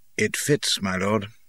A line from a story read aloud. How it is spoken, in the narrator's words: Wood says quietly